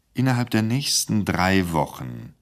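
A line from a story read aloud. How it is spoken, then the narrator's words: Gentle again. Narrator (German): sagte der Intendant nun wieder sanft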